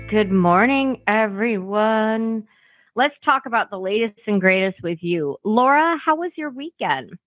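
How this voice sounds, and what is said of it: Raspy voice. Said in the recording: “I kind of have a raspy voice this morning.”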